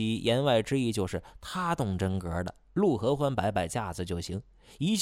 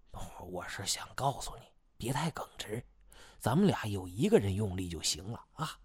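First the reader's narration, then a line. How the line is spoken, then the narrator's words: Worried, hushed voice. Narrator (Chinese): 应喜不放心，压低声音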